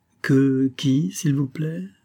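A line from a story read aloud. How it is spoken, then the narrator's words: Plain. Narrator (French): demanda Olivia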